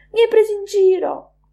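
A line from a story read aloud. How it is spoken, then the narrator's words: Man exclaiming. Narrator (Italian): esclamò lui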